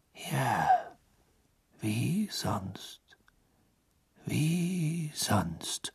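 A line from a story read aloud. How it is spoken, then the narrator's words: Murmuring. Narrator (German): murmelte Dumbledore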